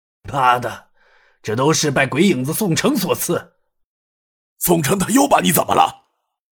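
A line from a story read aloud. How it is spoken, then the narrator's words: Angry cursing. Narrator (Chinese): 牛太官怒骂道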